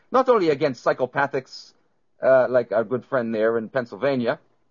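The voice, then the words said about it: Put-on German accent. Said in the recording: “German accent”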